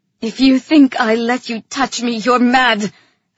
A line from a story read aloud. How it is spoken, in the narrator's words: I snapped